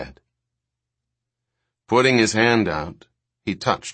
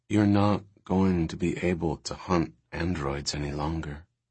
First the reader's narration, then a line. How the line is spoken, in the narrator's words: she said calmly